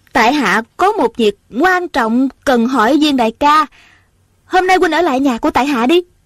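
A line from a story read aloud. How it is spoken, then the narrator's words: Smiling. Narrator (Vietnamese): Ôn Thanh mỉm cười nói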